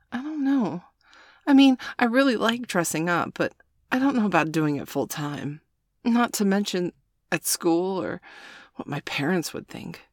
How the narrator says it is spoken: Bailey said timidly

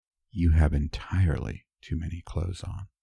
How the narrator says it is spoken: whisper

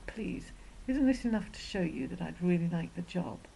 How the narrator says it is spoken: pleaded

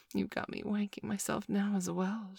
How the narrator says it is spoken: she breathed

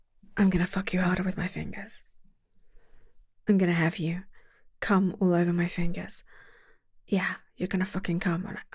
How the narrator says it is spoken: Heads really close together, but she was whispering in my fucking ear

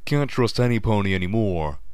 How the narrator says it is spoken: the paperweight grumbled

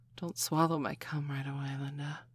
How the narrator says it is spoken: she said, half-whispered breathlessly

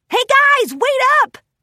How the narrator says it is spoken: Rainbow Dash hollered

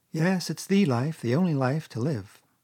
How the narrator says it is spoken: responded the water rat, dreamily, and without his usual wholehearted conviction

